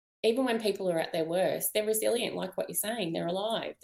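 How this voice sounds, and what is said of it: Hoarse, fading voice. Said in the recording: “losing my voice again”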